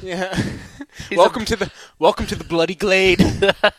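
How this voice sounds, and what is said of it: Bad put-on English accent. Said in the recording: “We're doing the worst English accents ever. ... my English accent is bad, too.”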